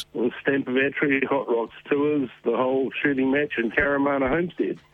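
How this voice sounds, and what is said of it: Hoarse, worn-out voice. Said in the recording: “my voice sounds like it's absolutely shot”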